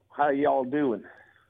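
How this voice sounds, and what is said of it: Decent put-on Texas accent. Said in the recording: “Can you do a Texas? ... Oh, that's not bad.”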